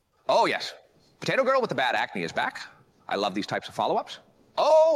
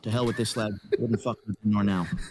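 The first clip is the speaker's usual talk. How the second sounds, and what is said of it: Imitates another person's voice. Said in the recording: “I guess I can do an impression of Conor McGregor”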